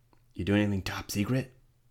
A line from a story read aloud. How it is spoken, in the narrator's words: Then whispered